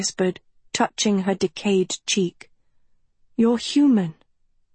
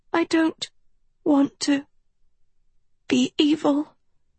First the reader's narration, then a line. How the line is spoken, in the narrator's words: Sophie panted through sobs